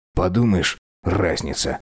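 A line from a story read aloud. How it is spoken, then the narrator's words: Muttered. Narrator (Russian): буркнул Диль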